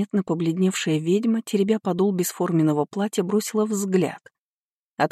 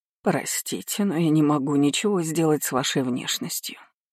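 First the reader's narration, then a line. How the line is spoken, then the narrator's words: Extremely quiet. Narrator (Russian): произнесла она так тихо, что, клянусь, комары и те летают громче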